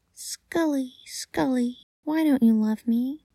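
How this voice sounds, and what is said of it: High-pitched character voice. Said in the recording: “made the dog say ... in a high voice.”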